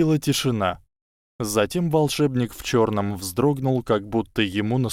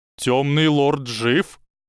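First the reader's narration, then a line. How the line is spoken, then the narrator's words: Strained, forced out. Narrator (Russian): выдавил он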